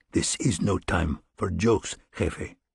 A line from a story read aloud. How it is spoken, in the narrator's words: in a low voice, he murmured